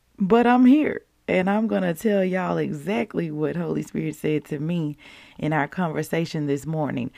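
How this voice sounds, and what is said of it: Deep, husky, not-yet-recovered voice. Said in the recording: “deep voice girl ... apparently I sound like a bluesy, jazzy singer this morning ... My voice has still not quite recovered”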